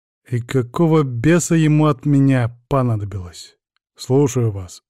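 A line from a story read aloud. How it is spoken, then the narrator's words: Gruff mutter. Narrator (Russian): буркнул я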